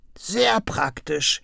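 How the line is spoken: Croaked. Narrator (German): krächzte Krummel

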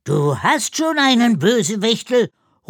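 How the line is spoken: Reproachful call. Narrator (German): ruft er vorwurfsvoll

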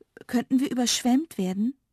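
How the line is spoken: Fearful question. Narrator (German): fragte ängstlich

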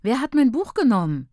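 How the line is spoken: Desperate cry. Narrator (German): rief ich verzweifelt

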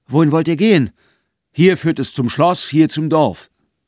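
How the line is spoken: Impatient calling bearded man. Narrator (German): Der Vollbärtige rief ungeduldig

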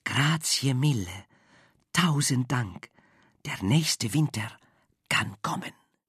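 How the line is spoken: Whispering. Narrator (German): Frau Angelo flüsterte

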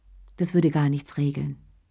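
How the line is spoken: Plain. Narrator (German): sagte Sherry

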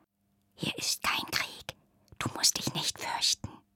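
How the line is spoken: Whispered. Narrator (German): flüsterte sie

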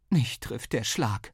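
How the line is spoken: Mother groaning. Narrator (German): stöhnte Mama

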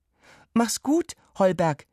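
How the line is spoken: Calling out. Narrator (German): rief Viktoria dem Hund zu

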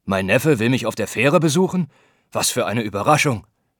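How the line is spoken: Uncle's booming call. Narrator (German): rief sein Onkel mit polternder Stimme

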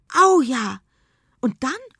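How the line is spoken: Calls out. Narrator (German): ruft Jule

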